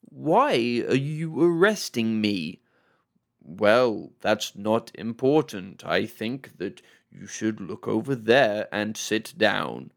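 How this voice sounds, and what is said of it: Impression of game characters' stilted talk. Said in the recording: “that's a very good impression. ... that's a very bang on of how they talk to each other.”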